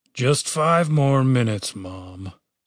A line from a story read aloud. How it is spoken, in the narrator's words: Chaz groaned